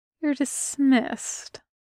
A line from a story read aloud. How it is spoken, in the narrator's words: Dileth's mean smile curls wider, and he says, quietly